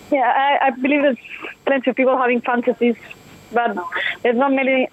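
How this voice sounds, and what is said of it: Foreign-accented English. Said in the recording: “I love your accent”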